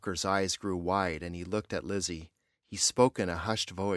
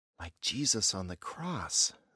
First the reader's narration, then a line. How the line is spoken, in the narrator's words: said Lizzie quietly